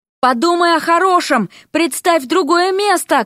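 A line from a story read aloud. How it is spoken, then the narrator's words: Shout. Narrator (Russian): крикнула ему Вася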